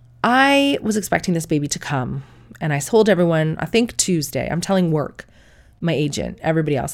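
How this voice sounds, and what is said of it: Sick-sounding voice. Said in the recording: “I am sick at the minute. You can hear from my voice.”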